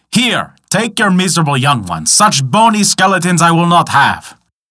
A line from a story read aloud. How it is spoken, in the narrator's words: roaring out